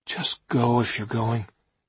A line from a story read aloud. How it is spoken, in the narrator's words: I said wearily